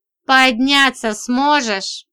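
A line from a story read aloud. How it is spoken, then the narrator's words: Mocking question. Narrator (Russian): спросил Бардин, насмешливо ухмыляясь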